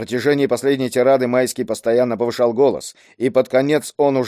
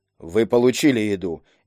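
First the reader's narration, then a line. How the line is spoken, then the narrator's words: Unruffled calm guard. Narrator (Russian): невозмутимо спокойным голосом ответил охранник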